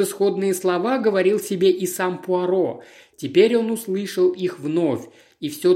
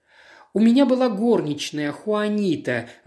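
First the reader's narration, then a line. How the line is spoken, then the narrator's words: Sighing. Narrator (Russian): вздохнула Катрина Самушенко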